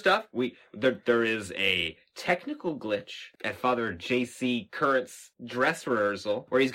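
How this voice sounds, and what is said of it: Usual voice. Nothing is said of it.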